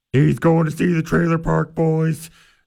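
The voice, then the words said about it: Impression of a TV character's voice. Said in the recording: “That's my impression of Bubbles”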